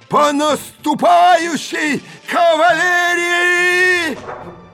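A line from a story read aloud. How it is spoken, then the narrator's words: Hoarse breaking shout. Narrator (Russian): Голос осипший, срываясь, прокричал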